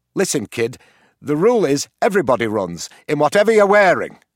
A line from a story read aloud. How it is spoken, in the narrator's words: snapped the teacher